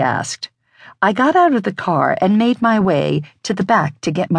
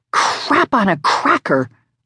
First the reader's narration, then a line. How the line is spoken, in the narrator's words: I muttered